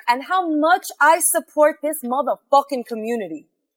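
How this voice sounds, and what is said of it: Put-on Brooklyn accent. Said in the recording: “I have to add that accent ... you don't sound Brooklyn enough, and you need to be Brooklyn”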